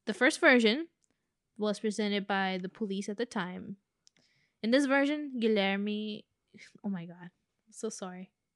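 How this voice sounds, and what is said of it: Non-native English accent. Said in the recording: “I let my accent ruin a name like that.”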